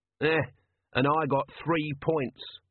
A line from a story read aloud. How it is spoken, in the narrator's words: mumbled Nobby